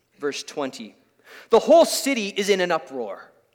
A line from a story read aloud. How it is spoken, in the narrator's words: they shouted to the city officials